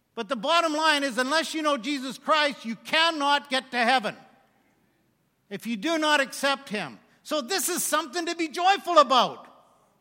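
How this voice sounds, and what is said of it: Loud, shouting, joyful preaching. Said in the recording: “I'm shouting. My kids were here. They say, Dad, you're shouting again. Because I'm joyful”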